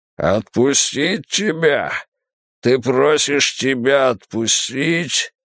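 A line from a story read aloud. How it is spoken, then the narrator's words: Disgusted growl. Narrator (Russian): Тул зарычал от отвращения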